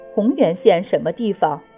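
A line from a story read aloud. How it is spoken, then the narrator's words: Nervous, soft question. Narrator (Chinese): 有点莫名紧张，轻声问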